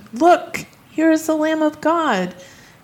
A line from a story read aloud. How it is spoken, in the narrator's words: John … he exclaimed